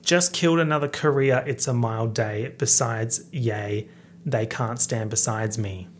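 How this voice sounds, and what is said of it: Put-on broad Australian accent. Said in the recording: “how it would sound if an Australian rapped this in, like, full Australian accent.”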